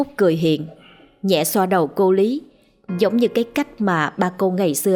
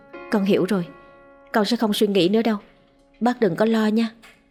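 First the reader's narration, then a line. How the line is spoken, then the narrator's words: Soft murmur. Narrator (Vietnamese): Cô thủ thỉ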